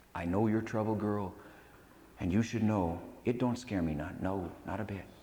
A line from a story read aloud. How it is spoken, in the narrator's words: In a serious voice, he murmured